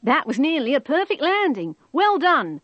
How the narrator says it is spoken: shouted the control tower

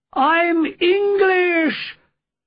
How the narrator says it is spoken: I shouted back desperately

